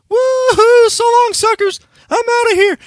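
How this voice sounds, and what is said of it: Cartoonish escaping-rabbit character voice. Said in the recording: “I'd do this same voice”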